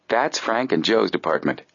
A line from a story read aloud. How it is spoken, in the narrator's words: Jerry replied